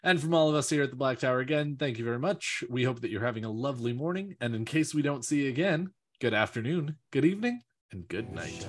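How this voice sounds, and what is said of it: Polished radio announcer voice. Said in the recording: “that was a good radio voice.”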